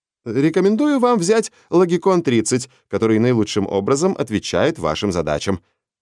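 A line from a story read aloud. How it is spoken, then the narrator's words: Brisk salesman voice. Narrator (Russian): начал Рипли бодрым голосом рекламного агента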